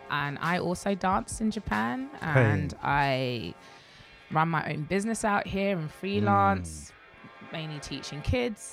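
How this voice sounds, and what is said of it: British accent. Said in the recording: “I'm British. ... Hopefully my accent will make anything I say sound more interesting.”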